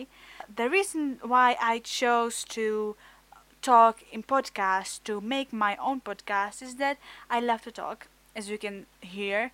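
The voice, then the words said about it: Czech-accented English. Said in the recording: “I'm from Czech Republic. My English is not really good ... my a bit of weird accent, my weird pronunciation of some words”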